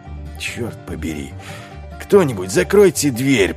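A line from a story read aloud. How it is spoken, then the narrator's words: Growling. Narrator (Russian): прорычал Ваймс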